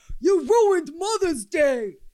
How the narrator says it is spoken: One man even took it upon himself to yell

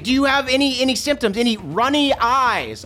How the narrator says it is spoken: I shout that so that Morgan can hear

